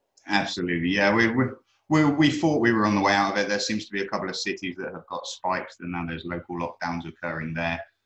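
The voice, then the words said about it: British accent. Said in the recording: “based on your accent, I'm guessing you're in the UK”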